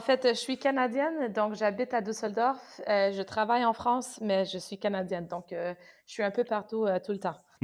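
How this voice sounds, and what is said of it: Slight Canadian French accent. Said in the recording (French): “on, a remarqué ton petit accent ... comme ton accent euh, ne, l'indique pas”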